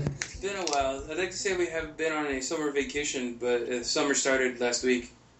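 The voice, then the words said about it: Slightly hoarse voice. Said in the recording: “I'm a little hoarse right now.”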